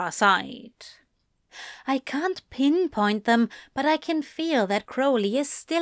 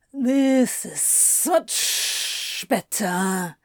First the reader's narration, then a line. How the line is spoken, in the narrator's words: Anthony grumbled sarcastically